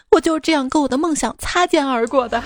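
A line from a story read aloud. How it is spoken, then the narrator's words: Crying. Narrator (Chinese): 他边哭边对我说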